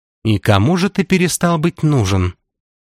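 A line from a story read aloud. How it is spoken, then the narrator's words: Plain. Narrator (Russian): спросила вампирша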